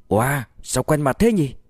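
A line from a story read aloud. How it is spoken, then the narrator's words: Surprised exclamation. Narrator (Vietnamese): Tùy Hâm thốt lên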